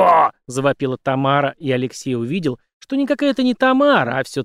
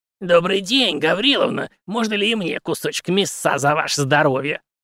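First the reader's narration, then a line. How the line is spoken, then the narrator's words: Contemptuous hiss. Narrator (Russian): презрительно прошипела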